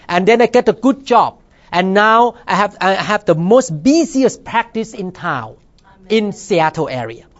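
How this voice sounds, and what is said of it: Thai-accented English. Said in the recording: “a foreigner here, speaking with accent, come from Thailand”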